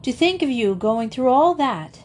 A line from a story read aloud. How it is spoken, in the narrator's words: exclaimed